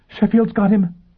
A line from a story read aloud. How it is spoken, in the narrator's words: Bunny gasped